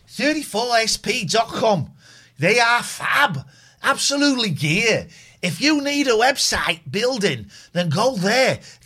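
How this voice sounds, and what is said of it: Manchester accent. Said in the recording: “what's your accent? I'm from Manchester. East of Manchester.”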